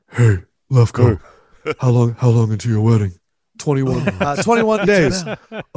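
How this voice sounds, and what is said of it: Imitates another person's voice. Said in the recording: “Do you want to know what Shaq is like?... Does Shaq do a Lefkoe impression?”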